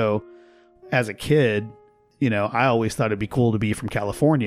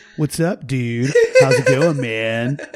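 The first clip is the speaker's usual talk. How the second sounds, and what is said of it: Faux California surfer accent. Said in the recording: “you would adopt this faux California accent”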